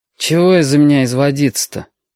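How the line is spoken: Mutter. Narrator (Russian): пробурчал он

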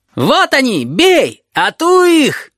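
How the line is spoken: Boys shrieking excitedly. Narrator (Russian): Визжали мальчишки

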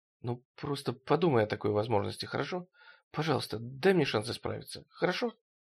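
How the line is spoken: Very quiet. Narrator (Russian): Очень тихо Кэрол произнесла

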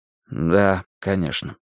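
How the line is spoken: Quick mutter. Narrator (Russian): бормотнул я

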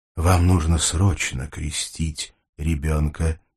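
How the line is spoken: Quiet. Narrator (Russian): тихо сказал Альберт

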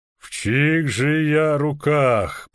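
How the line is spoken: Booming muffled voice from helmet. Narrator (Russian): прогудел он из глубин шлема

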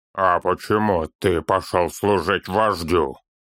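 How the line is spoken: Grim question. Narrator (Russian): Мрачно спросил Торин

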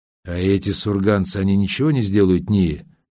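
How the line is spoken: Trembling voice. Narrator (Russian): Дрогнувшим голосом поинтересовался Олег

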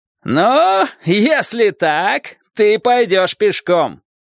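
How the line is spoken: Shout. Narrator (Russian): крикнул человек на острове

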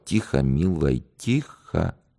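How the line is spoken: Whisper. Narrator (Russian): прошептал

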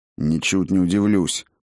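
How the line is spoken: Grumbling. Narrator (Russian): проворчал Кириус

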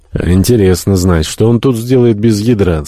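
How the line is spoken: Through gritted teeth. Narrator (Russian): сквозь зубы процедил Шанден

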